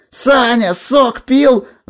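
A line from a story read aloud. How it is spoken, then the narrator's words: Crowd yelling back. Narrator (Russian): завопили в ответ поклонники Горелина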